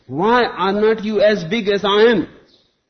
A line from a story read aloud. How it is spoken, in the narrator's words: He roared